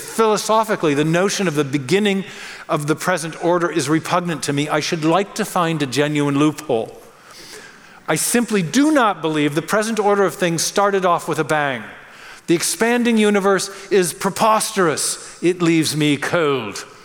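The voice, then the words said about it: Put-on British accent. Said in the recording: “He was British, so I'm having a little fun with the accent there.”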